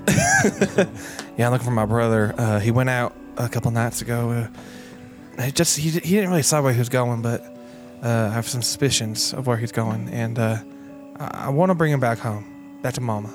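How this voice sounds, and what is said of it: Put-on character accent. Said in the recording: “God, it's so hard doing other different accents. ... I won't lose the accent.”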